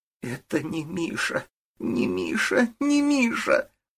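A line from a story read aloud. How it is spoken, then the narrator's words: Anguished sob. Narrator (Russian): надрывно всхлипнула Ирина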